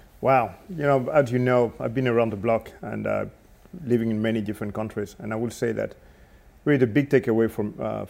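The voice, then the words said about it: English with a French accent. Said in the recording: “you speak English with a French accent ... I still have the French accent”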